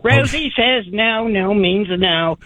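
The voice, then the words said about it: Impersonation of Rosie O'Donnell. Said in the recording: “Was that an impersonation of your ex, or was that Rosie? Was that her impersonation of Rosie?”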